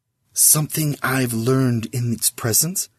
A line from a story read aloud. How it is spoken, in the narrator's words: he whispered to Sizz